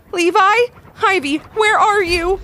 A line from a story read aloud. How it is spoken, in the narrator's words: she frantically called out